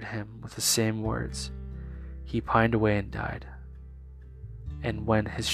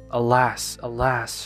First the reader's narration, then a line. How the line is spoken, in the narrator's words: he exclaimed